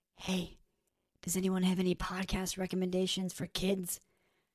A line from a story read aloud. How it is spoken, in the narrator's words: whispered